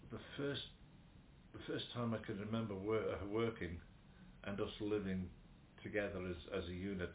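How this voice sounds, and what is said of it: Slight Liverpool twang. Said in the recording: “my bit of a Liverpool twang”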